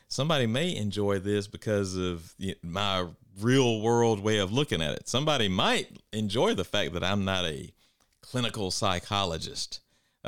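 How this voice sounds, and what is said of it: Country accent. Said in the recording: “my country you know, accent.”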